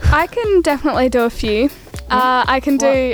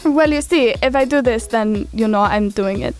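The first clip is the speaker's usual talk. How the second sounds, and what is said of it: Put-on Russian accent. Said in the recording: “More of a Russian one. I think it's kind of Russian... I can definitely see that is some sort of Russian accent.”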